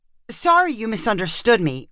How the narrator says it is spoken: Rin cried, backtracking desperately

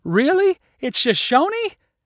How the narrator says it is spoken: cried Jace with excitement

